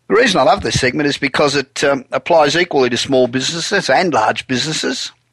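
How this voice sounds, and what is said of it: Heavy Australian accent. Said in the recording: “Do you still live in Australia? ... my accent's still pretty heavy”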